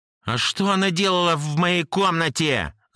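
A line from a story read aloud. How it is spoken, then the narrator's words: Shout. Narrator (Russian): закричал я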